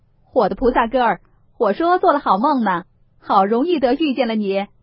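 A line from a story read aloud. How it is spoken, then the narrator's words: Laughing, several voices. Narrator (Chinese): 清客相公、沾光、善聘人二人 都笑着 都道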